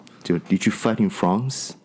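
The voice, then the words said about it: Put-on British accent. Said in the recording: “I'm gonna do this in the British accent.”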